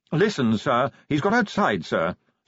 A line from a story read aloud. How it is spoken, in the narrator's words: said Willikins urgently